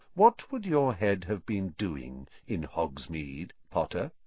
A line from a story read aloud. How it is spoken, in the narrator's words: said Snape softly